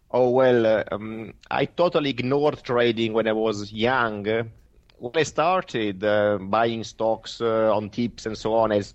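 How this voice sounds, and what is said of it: Italian accent. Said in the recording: “Italian accent.”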